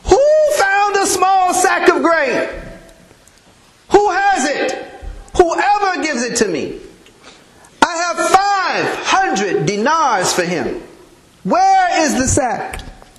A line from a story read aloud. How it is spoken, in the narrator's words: His shouting got louder and louder and louder as he became more desperate